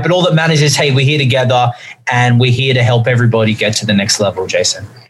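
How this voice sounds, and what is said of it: Australian accent. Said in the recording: “this Australian accent”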